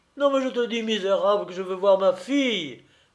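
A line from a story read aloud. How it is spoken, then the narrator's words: Exclaiming. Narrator (French): s'écria M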